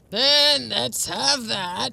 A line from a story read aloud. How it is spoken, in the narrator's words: he grumbled